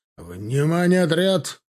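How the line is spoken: Barked. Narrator (Russian): рявкнул Тимофей

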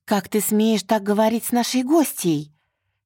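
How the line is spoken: Indignant shouting. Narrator (Russian): кричала ему вслед возмущенная Мари

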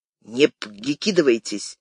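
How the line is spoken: Angry hiss. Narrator (Russian): зло прошипел Усов

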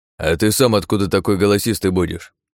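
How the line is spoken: Grumbling. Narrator (Russian): проворчал он

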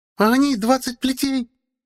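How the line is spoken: Shrill yelling. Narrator (Russian): Блажила визгливая

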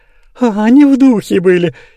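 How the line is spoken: Giggling. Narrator (Russian): хихикнул Назар Назарыч

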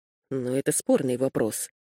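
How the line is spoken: Mumble. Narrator (Russian): пробормотал Уиксон

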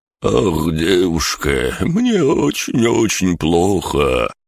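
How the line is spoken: Moan. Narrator (Russian): простонал Бран

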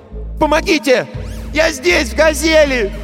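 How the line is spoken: Shouting. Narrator (Russian): Он закричал

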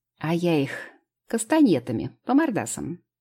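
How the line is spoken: Guffawing. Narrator (Russian): захохотала Анюта

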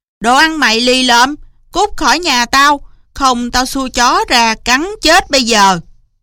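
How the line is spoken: Loud cursing old man. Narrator (Vietnamese): Lão chủ nhà lớn tiếng chửi rủa

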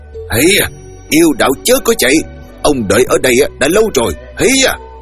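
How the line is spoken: Furious loud yell. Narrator (Vietnamese): Dương Mạnh ngó thấy đùng đùng nổi trận hét lớn

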